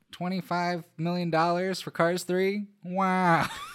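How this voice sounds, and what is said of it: Imitates another person's voice. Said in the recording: “best Owen Wilson impression”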